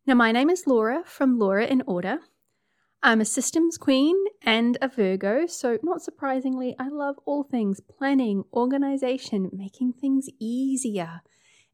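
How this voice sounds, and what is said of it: New Zealand accent. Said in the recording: “I'm a Kiwi, as you can tell by the accent.”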